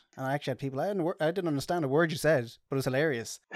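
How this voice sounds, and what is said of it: Sing-song Irish accent. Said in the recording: “being Irish ... my accent ... my sing-song voice”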